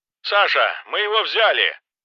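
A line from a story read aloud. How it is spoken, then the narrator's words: Excited shouting. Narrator (Russian): прокричал он, явно возбужденный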